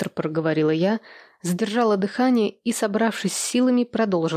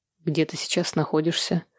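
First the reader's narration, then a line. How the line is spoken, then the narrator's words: Calm question. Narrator (Russian): спокойно спросил он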